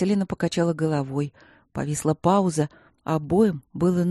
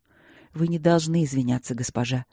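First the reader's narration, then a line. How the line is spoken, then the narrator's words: Soft. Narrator (Russian): мягко произнес он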